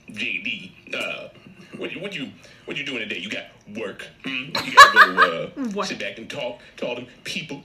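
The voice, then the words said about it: Impression of John Witherspoon. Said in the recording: “his son do an impression of him... Does a great impression of his dad... John Witherspoon”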